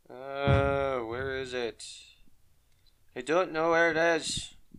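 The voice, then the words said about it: Irish accent. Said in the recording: “going to my accent again ... when you get frustrated, you just turn Irish.”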